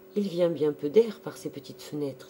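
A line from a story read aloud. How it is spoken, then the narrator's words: Plain. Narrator (French): dit-elle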